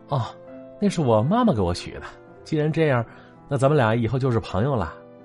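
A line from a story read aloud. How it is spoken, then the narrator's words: Smiling despite strain. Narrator (Chinese): 小莹眼角不自觉的抽动了一下，但是是依然微笑的说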